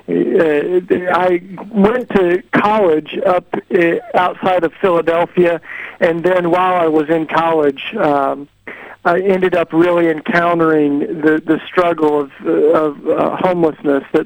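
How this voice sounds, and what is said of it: Southern US accent with twang. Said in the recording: “I'm from the deep south here in the U.S. ... I got a little bit of a twang in my accent”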